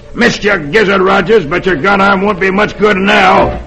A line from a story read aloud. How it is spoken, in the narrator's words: Dolan snarls